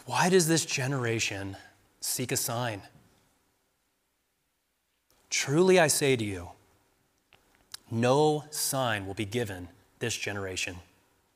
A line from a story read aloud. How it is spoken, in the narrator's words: Jesus sighed deeply in his spirit and said